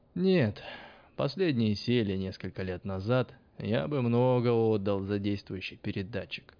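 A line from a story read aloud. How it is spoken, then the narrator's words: Sighing. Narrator (Russian): вздохнул Тесла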